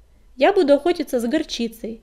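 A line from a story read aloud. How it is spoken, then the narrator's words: Plain. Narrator (Russian): сказала она Огнегриву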